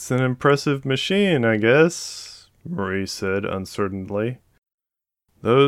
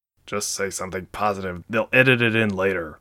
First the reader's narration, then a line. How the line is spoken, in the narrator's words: Cohill muttered